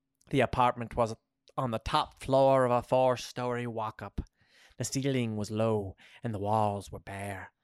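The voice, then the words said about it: Put-on Irish accent. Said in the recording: “This accent is getting away from me ... I wanted to become Irish.”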